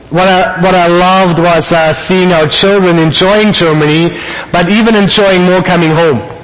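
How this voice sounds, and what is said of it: Noticeable accent, somewhat stronger. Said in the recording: “my accent might be a little stronger again”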